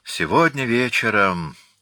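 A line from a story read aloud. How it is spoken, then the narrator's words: Sighed. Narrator (Russian): вздохнул Жолеваль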